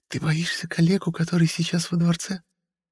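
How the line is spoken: Whisper. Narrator (Russian): прошептала Сапфо

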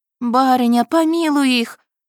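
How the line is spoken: Women exhaling in unison. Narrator (Russian): выдохнули женщины в голос

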